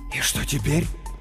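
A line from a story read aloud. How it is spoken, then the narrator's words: Whisper. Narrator (Russian): прошептал он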